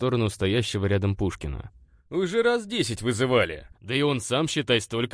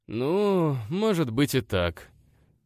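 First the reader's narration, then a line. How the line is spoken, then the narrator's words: Sighing reply. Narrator (Russian): вздохнул в ответ Данька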